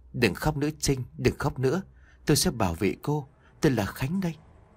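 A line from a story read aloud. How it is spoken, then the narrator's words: Soft voice. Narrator (Vietnamese): Một giọng nói khẽ vang lên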